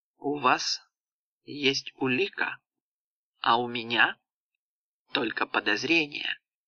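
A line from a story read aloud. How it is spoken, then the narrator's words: Slow. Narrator (Russian): медленно произнесла графиня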